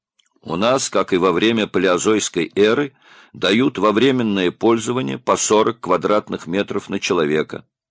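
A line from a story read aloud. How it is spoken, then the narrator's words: Flat, tired voice. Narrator (Russian): бесцветным голосом объяснил усталый человек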